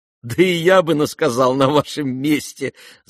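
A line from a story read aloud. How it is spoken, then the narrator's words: Laughing. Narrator (Russian): засмеялся князь Фердыщенко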